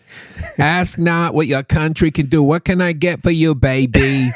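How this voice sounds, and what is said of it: Boston accent politician impression. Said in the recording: “that kind of Boston vibe ... John F. Kennedy ... I can kind of hear it though with that accent.”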